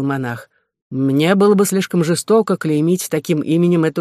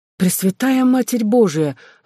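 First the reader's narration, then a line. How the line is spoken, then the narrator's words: Exclamation. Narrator (Russian): воскликнула Эльспет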